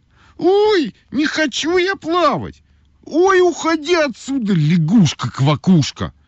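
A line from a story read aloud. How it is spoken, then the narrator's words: Shouting. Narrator (Russian): крикнула Ойка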